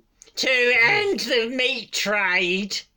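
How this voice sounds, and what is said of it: Imitates another person's voice. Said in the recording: “That was my impression of you.”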